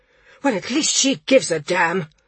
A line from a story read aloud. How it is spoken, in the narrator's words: snapped Bomber